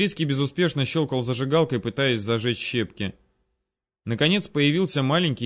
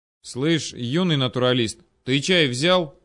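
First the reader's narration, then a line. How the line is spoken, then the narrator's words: Sharp call. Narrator (Russian): окрикнул я Макса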